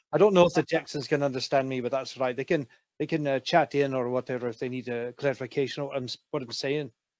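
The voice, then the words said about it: Put-on character dialect. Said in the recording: “I thought I'd do a bit of the dialect as well so you could hear it ... Or we could just drop the accent altogether”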